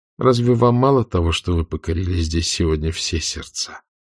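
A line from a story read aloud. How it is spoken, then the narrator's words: Gently mocking question. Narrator (Russian): спросил с прежней ласково-насмешливой ноткой в голосе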